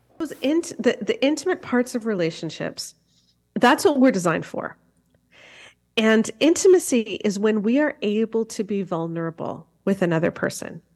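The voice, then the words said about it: Canadian accent. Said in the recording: “her awesome Canadian accent”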